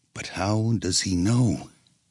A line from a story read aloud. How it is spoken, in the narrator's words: a person was overheard to have muttered